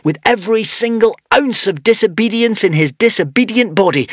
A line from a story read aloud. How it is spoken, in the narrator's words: Zar shouted